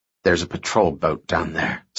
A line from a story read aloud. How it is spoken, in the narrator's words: Sam muttered